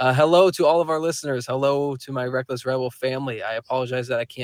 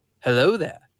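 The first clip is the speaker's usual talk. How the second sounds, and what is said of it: Imitates a film character's voice. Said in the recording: “my Obi Wan Kenobi impression”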